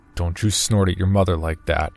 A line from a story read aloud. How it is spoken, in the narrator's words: said my father gruffly with authority